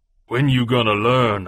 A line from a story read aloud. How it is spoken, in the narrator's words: growled